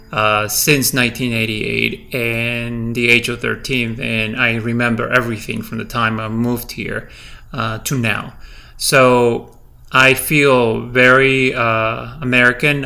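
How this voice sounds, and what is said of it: Slight non-native English accent. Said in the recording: “as you can hear me, I still have a slight accent when I speak ... English, it is my second language ... I have a slight accent”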